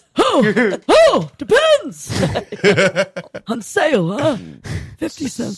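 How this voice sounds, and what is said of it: Old grandfather voice. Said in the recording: “Tell us your grandpa voice ... a very distinct voice of the grandfather variety”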